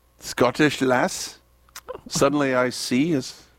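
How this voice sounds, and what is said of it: Put-on Scottish accent. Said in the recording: “That's a pretty good Scottish accent”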